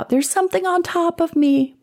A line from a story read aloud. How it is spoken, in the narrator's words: He finally cried out